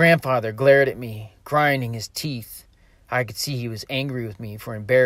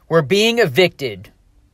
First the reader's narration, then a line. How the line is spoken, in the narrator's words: Feeling I had no choice, I shouted